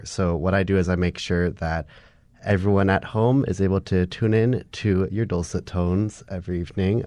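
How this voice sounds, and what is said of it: Smooth, polished radio announcer voice. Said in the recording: “you have a great radio voice.”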